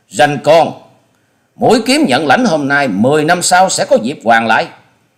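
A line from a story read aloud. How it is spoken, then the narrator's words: Shaken hateful hiss. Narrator (Vietnamese): Truy Hồn Trảo kinh mạc thất sắc, ánh mắt lóe ra sự hận thù, cắn môi rít tiếng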